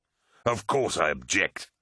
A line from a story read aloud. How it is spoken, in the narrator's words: spat Angron